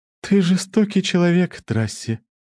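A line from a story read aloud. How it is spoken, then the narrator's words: Heavy sigh. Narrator (Russian): тяжело вздохнув, заговорила Суэйни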